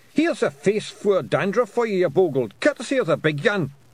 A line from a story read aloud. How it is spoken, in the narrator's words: Tiffany heard the man shout